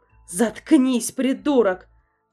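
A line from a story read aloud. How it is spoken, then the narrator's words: Yelled angrily. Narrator (Russian): заорала мисс Маршблок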